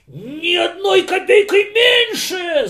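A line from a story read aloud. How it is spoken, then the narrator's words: Landowner's shout. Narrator (Russian): закричал помещик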